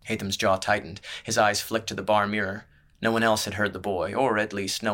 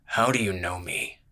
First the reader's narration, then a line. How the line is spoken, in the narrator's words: glared at the boy's reflection in the mirror and growled